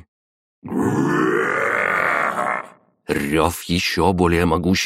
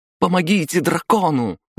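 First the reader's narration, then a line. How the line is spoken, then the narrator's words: Full-voiced shout. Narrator (Russian): закричала во весь голос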